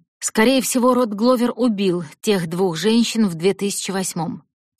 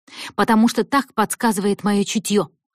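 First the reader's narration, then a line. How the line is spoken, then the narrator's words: Snapping back. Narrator (Russian): огрызнулась она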